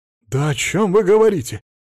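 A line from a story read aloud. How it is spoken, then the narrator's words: Exclamation. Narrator (Russian): воскликнул Платон Миронович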